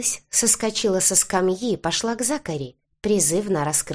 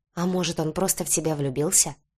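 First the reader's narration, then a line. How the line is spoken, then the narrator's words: Whisper. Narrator (Russian): шепнул полукровка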